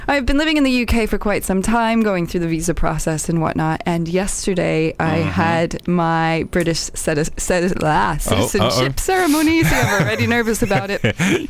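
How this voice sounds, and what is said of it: American accent. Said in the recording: “I sound very American, because I am American.”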